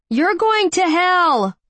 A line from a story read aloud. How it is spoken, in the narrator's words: a voice yelled at him in the dark